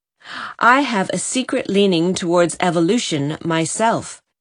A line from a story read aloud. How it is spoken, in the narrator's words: said Richard Chase solemnly